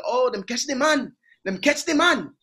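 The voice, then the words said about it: Put-on Jamaican accent. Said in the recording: “they got a Jamaican accent”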